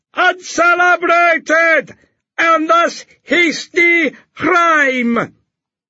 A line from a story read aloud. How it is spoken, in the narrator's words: he shouted after them